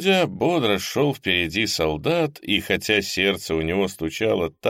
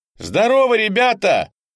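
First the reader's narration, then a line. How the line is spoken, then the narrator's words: Young fresh pleasant voice. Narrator (Russian): молодой свежий голосок приятно прозвучал в ушах каждого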